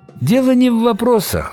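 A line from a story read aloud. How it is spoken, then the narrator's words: Sighing. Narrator (Russian): вздохнул Виктор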